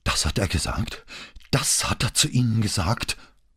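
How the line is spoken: Gasping. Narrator (German): keuchte sie

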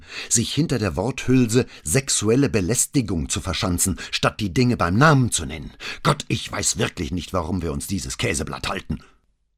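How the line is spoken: Angry hiss. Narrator (German): fauchte Paola

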